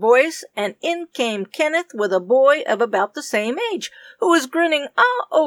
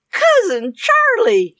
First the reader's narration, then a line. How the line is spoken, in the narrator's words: she squealed